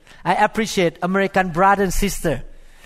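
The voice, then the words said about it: Speaker's own accent. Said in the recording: “I hope you appreciate my accent as well.”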